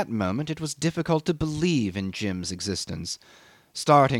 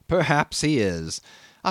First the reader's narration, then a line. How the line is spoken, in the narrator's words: I admitted with a slight laugh, whose unexpectedly loud reverberation made me lower my voice directly